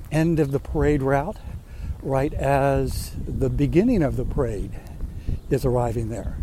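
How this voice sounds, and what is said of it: Usual voice. Nothing is said of it.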